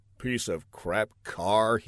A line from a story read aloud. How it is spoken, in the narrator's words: he muttered